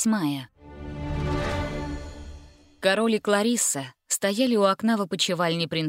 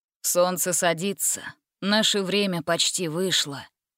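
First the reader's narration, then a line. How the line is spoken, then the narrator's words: Sighing. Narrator (Russian): вздохнул король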